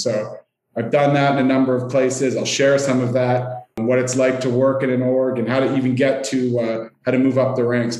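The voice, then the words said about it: Canadian accent. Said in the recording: “you'll hear I am Canadian in my accent. I'm sure many of the listeners will be giggling at some of the words I don't pronounce pronounce properly”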